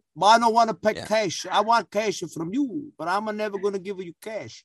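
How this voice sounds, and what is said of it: A put-on accent. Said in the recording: “That's a great accent.”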